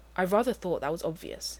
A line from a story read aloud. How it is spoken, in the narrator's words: he said stiffly